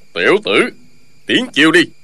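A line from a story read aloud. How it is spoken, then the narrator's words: Shouting. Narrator (Vietnamese): Ân Thiên Chính quát lên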